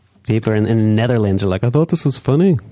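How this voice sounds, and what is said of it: Put-on Dutch accent. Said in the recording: “That's my Netherlands accent, too, brother.”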